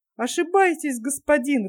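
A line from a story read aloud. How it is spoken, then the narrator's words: Laughing. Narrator (Russian): рассмеялся Тим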